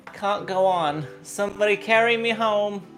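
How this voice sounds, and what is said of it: Muddled put-on accent. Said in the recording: “I don't even know what accent I'm doing anymore. I'm so confused and delirious.”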